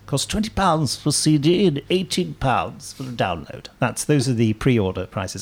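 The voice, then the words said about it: Silly put-on voice. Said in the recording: “I just feel nervous saying price things, so I just put on a stupid voice.”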